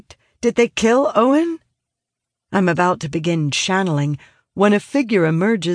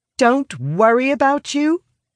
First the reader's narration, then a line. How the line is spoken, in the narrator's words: say, inadvertently raising my voice